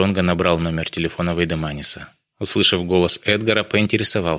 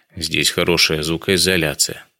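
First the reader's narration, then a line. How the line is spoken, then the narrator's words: Plain. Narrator (Russian): ответил Вейдеманис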